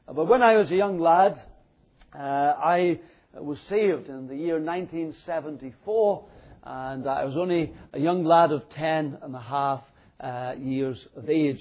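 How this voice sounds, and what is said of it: Northern Irish accent. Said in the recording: “despite the accent, brought up in England and not Northern Ireland”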